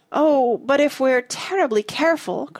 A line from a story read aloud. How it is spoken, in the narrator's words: cried Joe